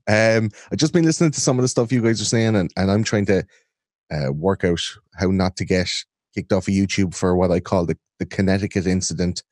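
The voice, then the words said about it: Irish accent. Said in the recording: “This is an Irish accent. I think I'm the only non-American in the house.”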